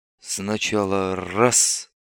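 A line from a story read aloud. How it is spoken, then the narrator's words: Whispered comment. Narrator (Russian): шепотом прокомментировал Бибик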